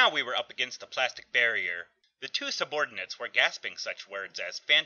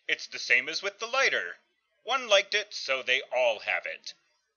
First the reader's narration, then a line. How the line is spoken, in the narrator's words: Johnny cried out